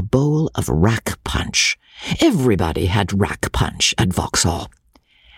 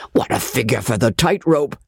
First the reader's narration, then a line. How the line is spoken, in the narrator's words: exclaimed another